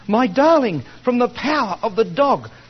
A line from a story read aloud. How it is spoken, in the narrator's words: cries